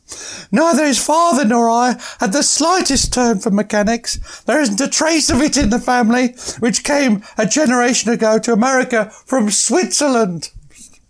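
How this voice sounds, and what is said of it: Put-on accent reading a quote. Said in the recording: “As you can tell by the accent ... that's the only accent we're doing.”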